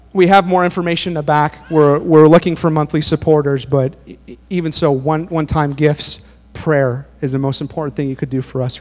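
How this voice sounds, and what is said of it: Hoarse, strained voice. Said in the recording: “I'm losing my voice now”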